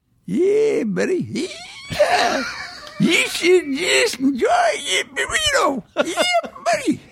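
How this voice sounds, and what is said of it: Put-on American old prospector accent. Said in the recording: “say that in your favorite American accent ... the old prospector just came in”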